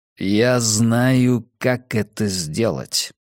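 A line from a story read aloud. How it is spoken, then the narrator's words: Slow drawl. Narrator (Russian): медленно протянул Кас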